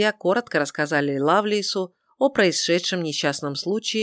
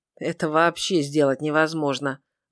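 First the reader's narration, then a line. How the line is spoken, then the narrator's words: Gloomy. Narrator (Russian): мрачно сказал Лоример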